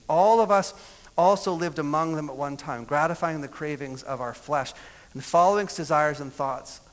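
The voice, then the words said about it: Reading very fast. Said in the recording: “I know I'm reading that fast”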